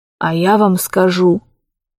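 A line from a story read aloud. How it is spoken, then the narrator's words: Old man, loud whisper. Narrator (Russian): старик перешел на громкий шепот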